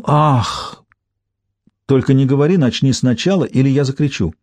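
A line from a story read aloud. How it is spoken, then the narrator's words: Exclamation. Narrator (Russian): кто-нибудь из них непременно бы воскликнул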